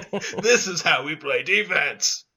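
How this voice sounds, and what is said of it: Poor put-on Australian accent. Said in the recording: “That was the worst Australian accent... I think mine was worse. I used to be able to do an Australian accent, kind of”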